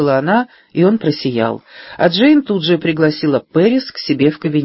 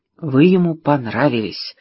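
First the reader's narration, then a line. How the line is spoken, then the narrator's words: Whisper. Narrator (Russian): шепнула она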